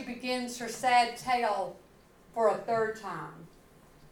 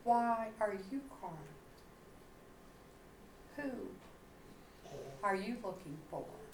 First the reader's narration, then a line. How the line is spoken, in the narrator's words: The man asks quietly